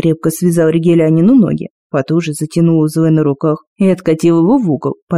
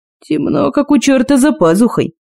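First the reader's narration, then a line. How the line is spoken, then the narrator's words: Grumble. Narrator (Russian): проворчал Кости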